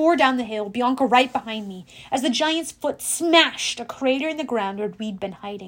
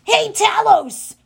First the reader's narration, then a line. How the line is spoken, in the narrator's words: Grover yelled